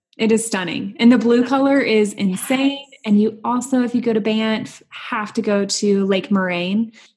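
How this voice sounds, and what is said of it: Southern American accent. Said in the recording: “I have this like Southern accent.”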